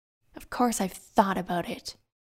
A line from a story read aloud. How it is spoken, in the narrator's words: she replied testily